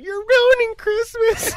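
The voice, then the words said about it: Imitates a little girl's voice. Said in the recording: “in her little girl voice”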